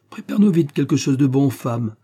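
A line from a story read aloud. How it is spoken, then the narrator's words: Cheerful. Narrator (French): ajouta-t-il en frappant gaiement dans ses mains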